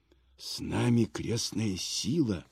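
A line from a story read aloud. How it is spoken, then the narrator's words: Whisper. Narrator (Russian): шепнул Илья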